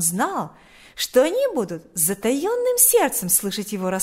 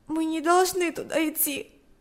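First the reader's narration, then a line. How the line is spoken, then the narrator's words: Tearful sob. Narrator (Russian): сказала, всхлипнув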